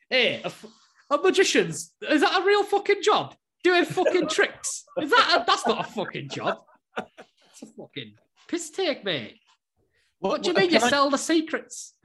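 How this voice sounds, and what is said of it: Wavering put-on Northern English accent. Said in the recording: “where was that accent meant to be from? ... That was my impression. ... It started off at Northern, and then it went kind of up to Newcastle, and then came back down. ... That's the accents that I hear around me at Blackpool.”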